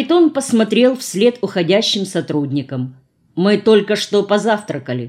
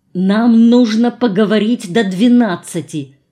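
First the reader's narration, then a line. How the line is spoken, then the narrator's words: Angry whisper. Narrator (Russian): сердито прошептал Харитон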